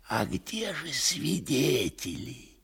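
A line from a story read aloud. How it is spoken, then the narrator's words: Whisper into ear. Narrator (Russian): шепнул в другое ухо Коровьев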